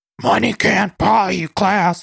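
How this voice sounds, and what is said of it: Gravelly Luann impression. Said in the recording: “My voice hurts from doing all that Luann impressioning. That Luann impression really hurts my throat ... It's really just the Cookie Monster.”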